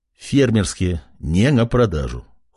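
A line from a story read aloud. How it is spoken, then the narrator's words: Cold reply, young man. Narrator (Russian): холодно ответил парень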